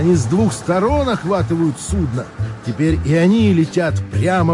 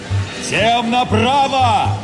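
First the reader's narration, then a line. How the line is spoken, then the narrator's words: Shout, captain. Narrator (Russian): закричал капитан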